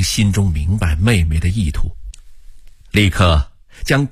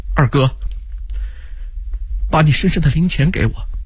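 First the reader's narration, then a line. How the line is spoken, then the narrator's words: Choked voice. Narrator (Chinese): 他的妹妹 声音哽咽地说道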